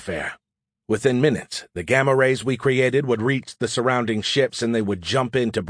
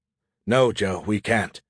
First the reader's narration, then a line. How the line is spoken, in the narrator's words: he replied with a sigh